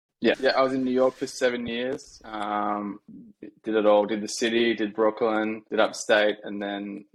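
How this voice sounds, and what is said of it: Australian accent. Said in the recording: “Nice to hear another Australian accent”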